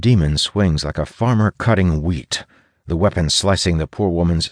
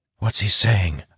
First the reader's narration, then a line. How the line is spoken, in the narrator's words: I whisper